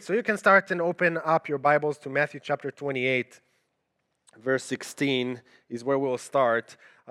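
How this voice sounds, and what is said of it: Israeli accent. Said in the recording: “the accent you hear is because I'm originally from Israel”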